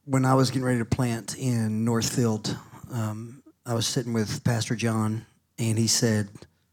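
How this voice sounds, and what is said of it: Southern American accent. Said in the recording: “You have a southern accent. ... the guy from Alabama.”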